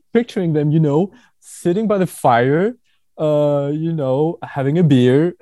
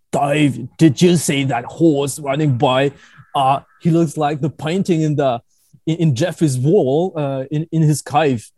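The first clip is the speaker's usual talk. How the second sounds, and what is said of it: Fairly good put-on Australian accent. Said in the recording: “was that an Aussie accent? That sounded a little Aussie. That was pretty good.”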